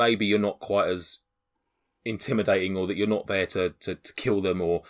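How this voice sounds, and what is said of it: Usual voice. Nothing is said of it.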